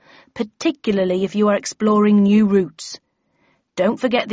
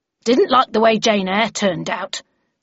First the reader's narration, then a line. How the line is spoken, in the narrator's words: said someone in a hostile tone from the back